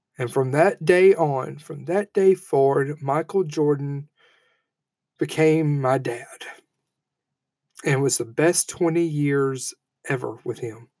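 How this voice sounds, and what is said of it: Emotional, choked-up voice. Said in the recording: “I keep getting emotional.”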